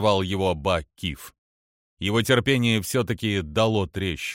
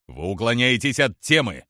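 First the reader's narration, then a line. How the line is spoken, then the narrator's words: Barking snap. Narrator (Russian): рявкнул Ба Киф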